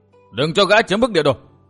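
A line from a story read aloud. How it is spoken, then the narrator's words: Crowd shouting. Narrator (Vietnamese): Quần hùng hắc bạch vừa quát tháo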